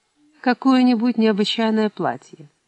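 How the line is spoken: Plain. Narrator (Russian): ответил Джейсон

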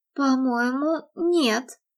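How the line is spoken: Embarrassed mumble. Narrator (Russian): смущенно пробормотала Кэти

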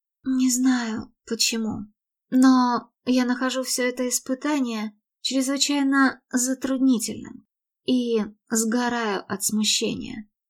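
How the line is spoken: Sighing confession. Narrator (Russian): вздохнув, призналась

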